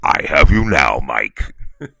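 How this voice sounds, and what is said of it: Darth Vader character voice. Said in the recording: “give me the Darth Vader voice”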